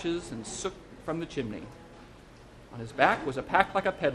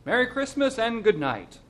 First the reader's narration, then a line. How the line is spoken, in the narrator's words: The driver called out